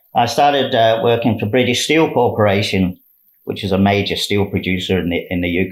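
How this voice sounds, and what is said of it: British accent. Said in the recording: “as you probably guessed by my accent. I'm not from Australia.”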